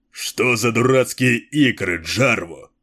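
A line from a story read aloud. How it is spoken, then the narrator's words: Growling. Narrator (Russian): прорычал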